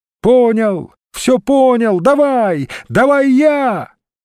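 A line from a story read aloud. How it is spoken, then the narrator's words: Shouting. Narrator (Russian): пчеловод закричал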